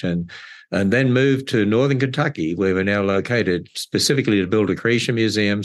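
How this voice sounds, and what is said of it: Australian accent. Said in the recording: “it is great to hear that accent of yours ... I'm originally from Australia”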